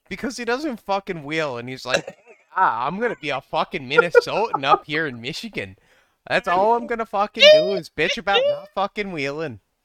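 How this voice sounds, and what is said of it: Put-on Canadian accent. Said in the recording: “Canadian accent”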